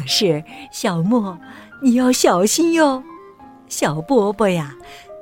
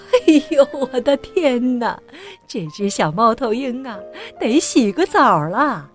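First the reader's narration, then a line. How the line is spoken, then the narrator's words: Grandmother laughing heartily. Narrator (Chinese): 奶奶大笑着说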